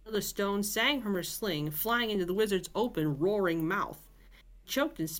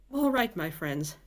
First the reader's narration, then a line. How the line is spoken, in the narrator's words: she said